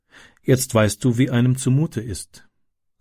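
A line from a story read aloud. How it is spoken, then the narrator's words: Calm. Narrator (German): sagte sie ruhig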